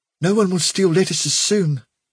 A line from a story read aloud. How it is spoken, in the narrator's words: said Fiver quietly